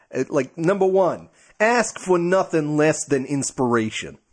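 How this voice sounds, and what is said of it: Put-on New York accent. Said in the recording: “I was considering like a New Yorker.”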